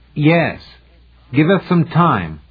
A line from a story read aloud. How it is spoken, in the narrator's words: more loudly